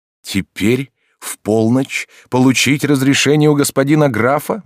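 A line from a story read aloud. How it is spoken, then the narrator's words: Young man exclaiming. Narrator (Russian): воскликнул молодой человек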